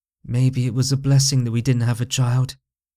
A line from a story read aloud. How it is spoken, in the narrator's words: as her eyes took on a gaze of detachment, she added in a measure that was just above a whisper